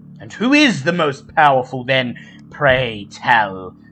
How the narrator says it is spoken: says Dane

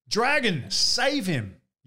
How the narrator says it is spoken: yelled Boris

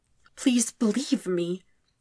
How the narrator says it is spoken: Zuko pleads, his voice cracking all over again

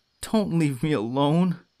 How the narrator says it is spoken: Narciso pleaded, crying like a baby

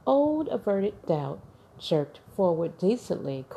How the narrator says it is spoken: cried Cabot

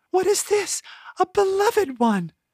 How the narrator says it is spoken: A delighted yet weepy gasp

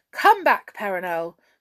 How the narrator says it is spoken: cried the king

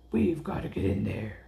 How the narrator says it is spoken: Ace growled

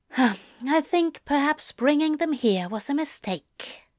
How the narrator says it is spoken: Zira sighed

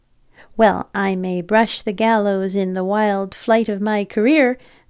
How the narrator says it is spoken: replied laughingly

